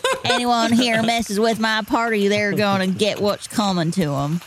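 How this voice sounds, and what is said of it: Put-on Southern US accent. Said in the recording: “I'm talking with a southern accent.”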